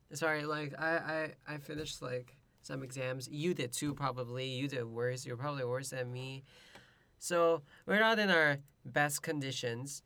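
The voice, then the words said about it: Soft, congested voice with a cold. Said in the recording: “You have a cold ... my ASMR voice ... I've been having a lazy voice, but then it got worse”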